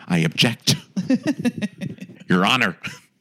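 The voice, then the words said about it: Imitates another person's voice. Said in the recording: “I'm working on my Sam Waterston impression.”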